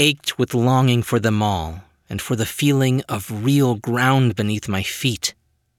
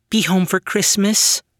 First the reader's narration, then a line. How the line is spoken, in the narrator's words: pleaded